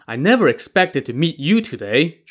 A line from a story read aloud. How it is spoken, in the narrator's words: Zhu Tong exclaimed